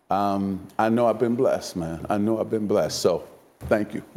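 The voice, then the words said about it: Emotional, near-tearful voice. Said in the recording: “Don't make me cry on here, because I'm getting emotional now”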